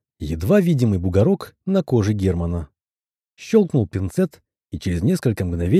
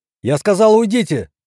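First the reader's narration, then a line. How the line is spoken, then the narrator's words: Doctor nearly yelling. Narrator (Russian): чуть не заорал доктор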